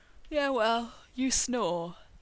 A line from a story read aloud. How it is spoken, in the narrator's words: he said sleepily